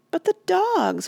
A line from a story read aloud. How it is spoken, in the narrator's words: wailed Randy